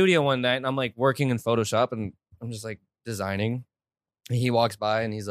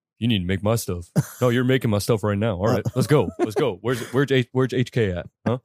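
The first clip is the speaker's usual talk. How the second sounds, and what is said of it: Imitates another person's voice. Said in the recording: “your impression is like John Wayne. No, it's like, sounds like John. ... No, it sounds like Shia LaBeouf.”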